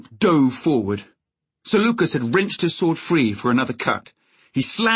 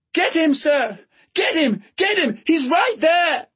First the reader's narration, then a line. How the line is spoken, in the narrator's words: somewhere far away he heard Egg screaming